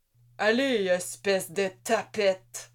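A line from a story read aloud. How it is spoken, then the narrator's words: Grumbled. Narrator (French): grommela l'un d'eux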